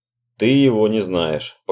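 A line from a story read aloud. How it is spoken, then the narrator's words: Sigh. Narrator (Russian): Роджер вздохнул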